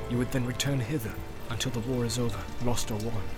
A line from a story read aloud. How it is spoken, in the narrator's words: said Eomer in a low voice